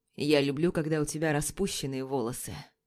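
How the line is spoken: Mumbled. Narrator (Russian): Бормочет Плахов

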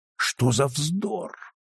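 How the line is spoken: Quiet exclamation in unison. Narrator (Russian): Мейсон, Ньюком, Берли и сенатор Редмонд, тихонько и чуть ли не в один голос воскликнули

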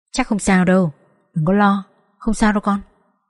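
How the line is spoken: Soft comforting. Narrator (Vietnamese): Mẹ tôi khẽ an ủi

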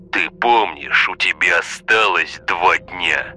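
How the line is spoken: Growled. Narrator (Russian): прорычал Олег

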